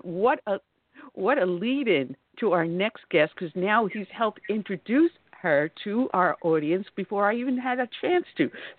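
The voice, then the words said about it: New York accent. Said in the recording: “the great state of New York, my former home, as you can tell from my dialect”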